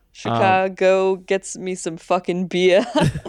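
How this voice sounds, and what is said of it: Put-on Boston accent. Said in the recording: “It was like a Boston accent... It felt Boston to me for sure... It was a Boston accent... It's just the funniest accent to do”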